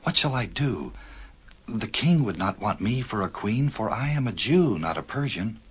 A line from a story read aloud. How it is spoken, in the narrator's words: whispered Esther